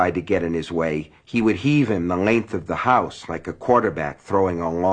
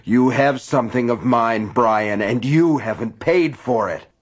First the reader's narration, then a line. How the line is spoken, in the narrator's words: Gaunt bellowing